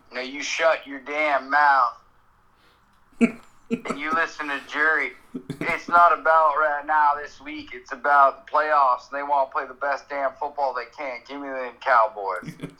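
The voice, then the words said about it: Stereotype accent, imitates another person's voice. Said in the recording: “I like the stereotype accent. It was mint. Sound like Jerry.”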